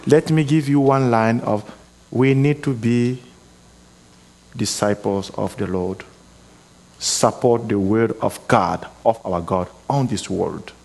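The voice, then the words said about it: Speaks with a noticeable accent. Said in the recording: “this man has an accent. I didn't understand very much what he said.”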